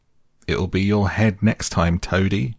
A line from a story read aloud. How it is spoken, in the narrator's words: they called out